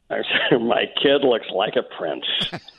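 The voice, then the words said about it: Condescending put-on American accent. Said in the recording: “your condescending American accent again”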